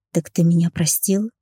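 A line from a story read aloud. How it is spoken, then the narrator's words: Whispered question. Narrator (Russian): шепотом поинтересовалась она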